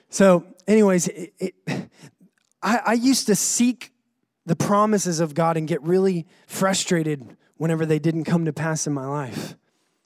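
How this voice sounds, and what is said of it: North Carolina accent. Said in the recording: “my accent is from North Carolina, by the way. That's how come I sound different from y'all.”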